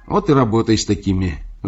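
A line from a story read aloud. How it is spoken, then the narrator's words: Sighing. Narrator (Russian): вздохнул Букашев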